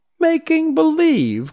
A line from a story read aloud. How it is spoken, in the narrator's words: cried Dorothy